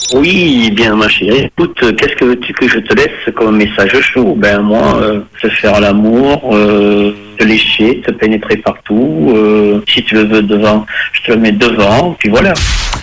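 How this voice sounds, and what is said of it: Southern French accent. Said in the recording (French): “le message hot avec l'accent du sud, ça marche pas bien”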